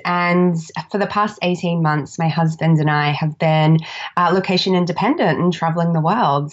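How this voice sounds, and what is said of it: Australian accent. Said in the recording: “I'm Australian, if you can't tell by my accent.”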